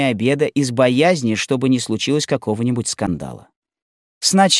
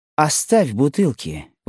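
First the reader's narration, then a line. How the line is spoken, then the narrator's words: Exclamation. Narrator (Russian): воскликнула Полина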